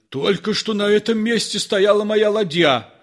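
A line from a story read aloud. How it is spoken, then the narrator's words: Shout. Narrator (Russian): закричал одноглазый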